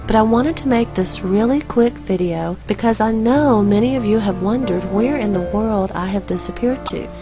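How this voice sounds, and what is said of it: Voice sounds off, affected. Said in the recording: “excuse my voice. ... please overlook how I sound today”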